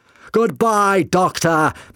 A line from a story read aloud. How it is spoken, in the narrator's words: McCavity shouted above the noise